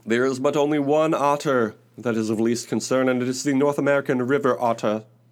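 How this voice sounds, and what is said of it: Old-timey early 20th-century American accent. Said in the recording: “That's my early 20th century American accent.”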